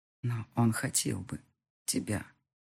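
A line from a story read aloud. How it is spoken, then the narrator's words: Low breathy voice near ear. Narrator (Russian): почти на ухо сказал он мне, обжигая ушную раковину горячим дыханием и заполняя меня своим низким голосом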